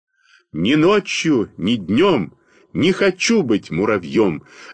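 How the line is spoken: Loud full-voiced singing. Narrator (Russian): запел я громко во весь голос

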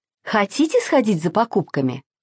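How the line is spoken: Plain. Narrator (Russian): спросила мама

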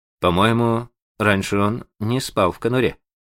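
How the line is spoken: Uncertain, hesitant. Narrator (Russian): сказал Джон неуверенно, словно боясь положиться на свою память

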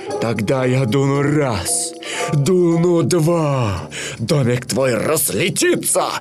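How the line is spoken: Menacing growl. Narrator (Russian): прорычал злой серый волк

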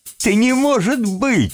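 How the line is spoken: Laughing loudly. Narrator (Russian): расхохотался Тим

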